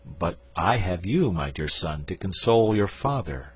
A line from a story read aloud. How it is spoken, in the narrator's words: said I